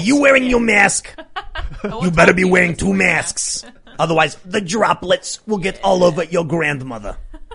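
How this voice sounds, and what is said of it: Impression of Anthony Fauci. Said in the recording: “in your Fauci voice”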